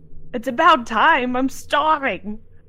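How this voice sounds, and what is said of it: Put-on character accent. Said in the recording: “That accent is just going to keep changing.”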